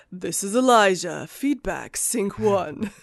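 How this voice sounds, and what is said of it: Announcer-style radio voice. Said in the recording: “you snapped into radio voice.”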